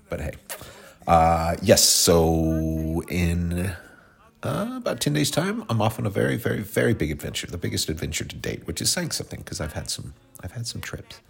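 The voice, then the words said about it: Stuffy, congested voice. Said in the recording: “I sound a little stuffy, because it's allergies”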